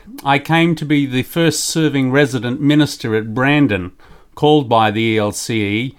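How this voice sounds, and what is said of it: Noticeable foreign regional accent. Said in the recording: “Your accent gives us a rough idea of where you're from”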